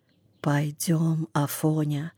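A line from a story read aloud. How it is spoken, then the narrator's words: Whisper. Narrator (Russian): Почему-то шепотом сказал Хромой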